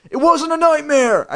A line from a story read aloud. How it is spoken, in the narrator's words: I shrieked